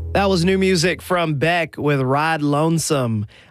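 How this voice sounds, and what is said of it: Southern Alabama accent. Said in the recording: “without it sounding completely Southern... my mid-Alabama... creeping into my accent”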